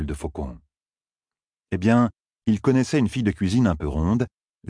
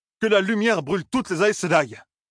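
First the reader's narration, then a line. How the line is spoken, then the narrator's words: Exclaimed. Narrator (French): s'écria-t-il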